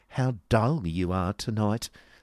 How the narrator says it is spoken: sneered Miss Squeers

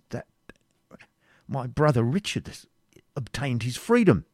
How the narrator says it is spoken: added in a faltering voice

